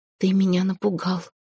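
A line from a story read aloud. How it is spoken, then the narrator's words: Quiet whisper. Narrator (Russian): проговорила она тихим шепотом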